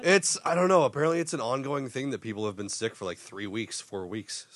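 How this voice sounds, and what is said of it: Congested, sick-sounding voice. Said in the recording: “I apologize for my voice, by the way. I'm still getting over that sickness ... The congestion just won't leave me alone.”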